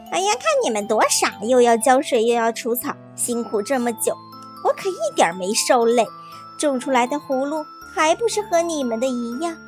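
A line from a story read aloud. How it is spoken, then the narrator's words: Smug, mocking. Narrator (Chinese): 王小二得意极了，笑话别人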